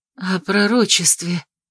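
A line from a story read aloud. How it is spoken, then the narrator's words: Breathed out. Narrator (Russian): выдохнула Тайгана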